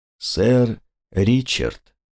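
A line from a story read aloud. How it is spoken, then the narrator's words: Gloomy voice. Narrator (Russian): проговорил мрачным голосом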